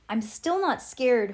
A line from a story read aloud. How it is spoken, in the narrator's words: hollered Trevor